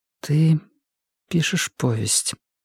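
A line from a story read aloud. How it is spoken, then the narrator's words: Muffled voice. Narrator (Russian): сказала она глухим голосом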